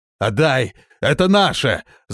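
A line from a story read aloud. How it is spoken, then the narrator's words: Growling. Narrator (Russian): зарычал он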